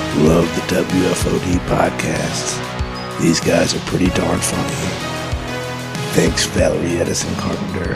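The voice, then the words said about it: Wolverine character voice. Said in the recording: “in his Wolverine voice”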